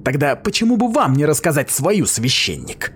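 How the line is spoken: Snapped. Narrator (Russian): огрызнулась она

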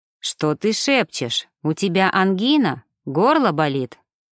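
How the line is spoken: Cold smirk. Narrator (Russian): Холодно усмехнулся Шведов

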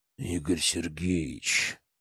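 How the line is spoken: Slow growl. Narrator (Russian): медленно прорычал Звонарев

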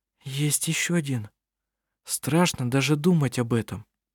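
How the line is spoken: Quiet speech. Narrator (Russian): Анна-Мария тихо проговорила

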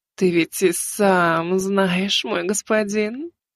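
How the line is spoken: Purring. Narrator (Russian): промурлыкала Азимандия

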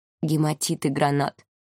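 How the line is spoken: Whisper. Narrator (Russian): прошептал он Ангелине

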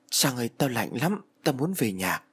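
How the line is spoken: Stammering, cold and frightened. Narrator (Vietnamese): Thằng Thiết mặt tái nhợt như người bệnh lắp bắp bảo

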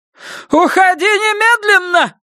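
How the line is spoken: Shouting. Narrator (Russian): кричала Ульяна

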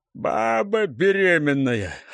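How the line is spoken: Loud laughter. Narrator (Russian): расхохотался Гуляй

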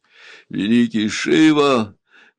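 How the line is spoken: Exclaiming through sobs. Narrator (Russian): воскликнул он, снова раздражаясь рыданиями

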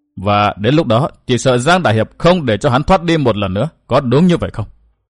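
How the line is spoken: Smiling, slow. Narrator (Vietnamese): Hoa Vô Khuyết mỉm cười nhìn lão từ từ nói

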